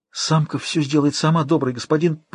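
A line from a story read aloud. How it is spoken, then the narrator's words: Near-silent frightened breath. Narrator (Russian): Почти беззвучно выдохнула, сжимаясь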